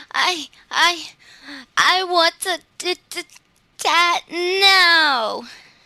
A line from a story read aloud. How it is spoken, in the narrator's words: she wailed